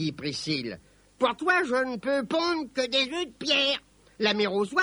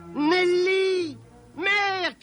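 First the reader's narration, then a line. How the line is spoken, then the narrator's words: Shout. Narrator (French): cria Robin lorsqu'il l'aperçut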